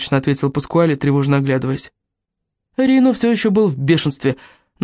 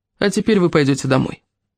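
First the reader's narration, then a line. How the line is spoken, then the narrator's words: Coldly said. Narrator (Russian): Паскуале холодно сказал Кармелле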